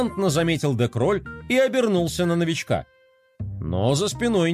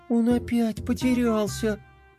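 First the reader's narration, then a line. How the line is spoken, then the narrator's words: Upset sigh. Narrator (Russian): Расстроенно вздохнула принцесса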